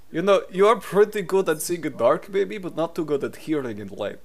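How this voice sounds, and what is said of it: Strong, hard-to-understand accent. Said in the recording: “You'll get used to his accent after a bit.”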